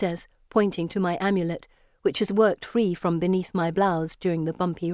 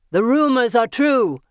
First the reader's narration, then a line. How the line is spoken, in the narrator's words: he shouts to his friends